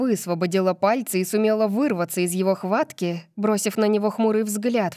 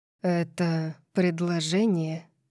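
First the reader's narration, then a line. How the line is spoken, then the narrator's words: Purring from behind. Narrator (Russian): Промурлыкал Калиб позади меня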